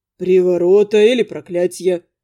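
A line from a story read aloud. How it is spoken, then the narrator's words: Calm speech. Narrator (Russian): спокойно произнес Элантар да Прияс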